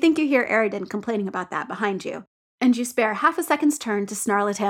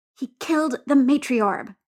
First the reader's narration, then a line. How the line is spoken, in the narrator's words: Kanaya hisses